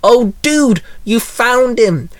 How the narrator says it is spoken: Angelique blurted

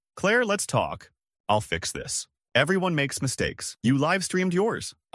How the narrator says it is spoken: I reply evenly

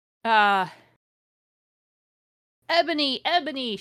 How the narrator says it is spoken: shouted Draco sadly

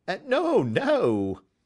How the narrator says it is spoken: cried Holmes

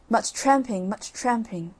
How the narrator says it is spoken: gruffly

